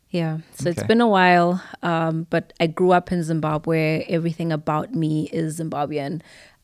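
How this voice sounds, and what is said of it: Zimbabwean accent. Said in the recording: “my American friends still say I have a Zimbabwean accent ... It's a beautiful accent.”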